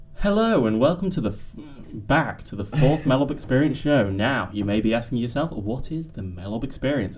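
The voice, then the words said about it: Professional radio presenter voice. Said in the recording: “my professional radio voice”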